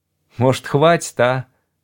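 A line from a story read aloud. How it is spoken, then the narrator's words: Timid voice. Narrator (Russian): робко произнес Шмерль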